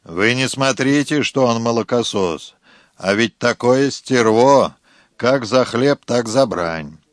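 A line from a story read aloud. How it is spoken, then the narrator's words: Gloomy man, smoking. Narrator (Russian): Мрачно покуривая, мужик говорил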